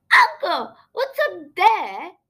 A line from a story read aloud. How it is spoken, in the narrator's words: exclaimed suddenly